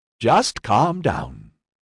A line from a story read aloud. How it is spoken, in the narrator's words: Finnerton said